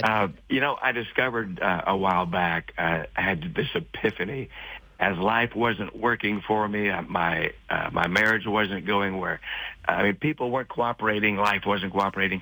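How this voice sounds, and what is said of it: Hoarse, raspy voice. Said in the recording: “forgive me, I have a little bit of a hoarse throat. I had a little bit too much fun yesterday.”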